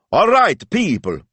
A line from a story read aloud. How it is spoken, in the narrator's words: he shouted